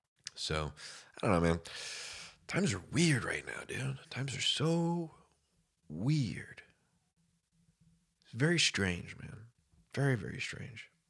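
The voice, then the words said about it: Very deep, congested voice. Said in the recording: “My voice is super deep right now ... when I get a cold”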